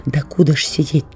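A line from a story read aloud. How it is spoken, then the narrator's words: Whispered question. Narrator (Russian): так же шепотом спросил Сережа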